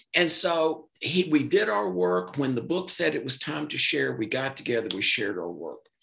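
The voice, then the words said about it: Southern US Mississippi accent. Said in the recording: “you can tell by my weird accent, I'm in Mississippi”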